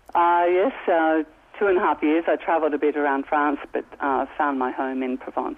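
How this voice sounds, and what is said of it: Australian accent. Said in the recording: “that's an Aussie accent. You're from Sydney originally.”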